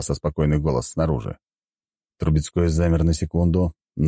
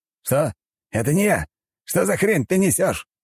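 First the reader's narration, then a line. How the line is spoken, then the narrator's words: Yelled. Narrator (Russian): заорал граф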